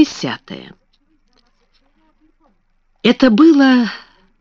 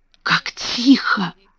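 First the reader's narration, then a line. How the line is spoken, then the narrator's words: Whisper. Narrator (Russian): прошептала Мэри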